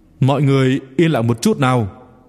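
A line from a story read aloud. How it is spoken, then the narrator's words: Raised young voice. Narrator (Vietnamese): chàng thiếu niên, cao giọng rồi nói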